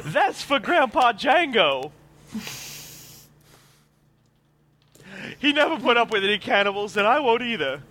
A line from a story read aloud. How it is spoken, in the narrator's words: Junpei yells out